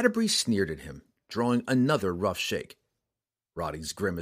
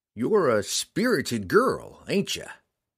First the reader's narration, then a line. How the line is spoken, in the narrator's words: Roddy purred